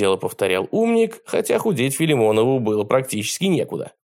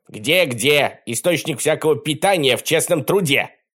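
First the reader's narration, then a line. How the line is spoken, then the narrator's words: Barking. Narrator (Russian): рявкнул Колобок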